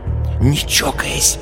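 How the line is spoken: Warning whisper. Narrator (Russian): упреждая, шепнула Люся Кашину

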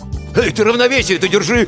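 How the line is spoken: Panicked shout. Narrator (Russian): в панике выкрикнул Крылов

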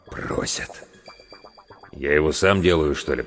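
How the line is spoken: Muttered. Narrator (Russian): пробормотал главврач

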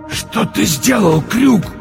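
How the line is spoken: Wheezing. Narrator (Russian): просипел монокль

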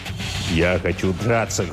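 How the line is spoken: Angry declaration. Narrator (Russian): злобно заявил тот

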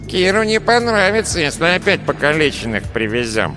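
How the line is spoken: Nasal whine. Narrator (Russian): прогнусавил безухий

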